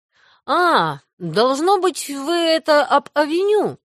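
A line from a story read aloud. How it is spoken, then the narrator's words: Drawling after brief thought. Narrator (Russian): протянул Мэтью после секундного размышления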